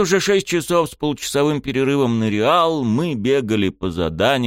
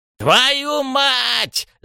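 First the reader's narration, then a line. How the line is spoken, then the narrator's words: Yelling. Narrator (Russian): завопил Рёдзи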